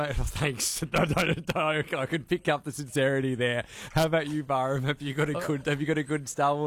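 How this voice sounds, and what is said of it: Usual voice. Nothing is said of it.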